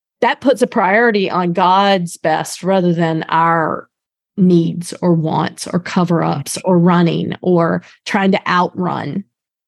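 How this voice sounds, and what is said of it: Old-fashioned North Carolina accent. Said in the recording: “my North Carolina accent from 100 years ago”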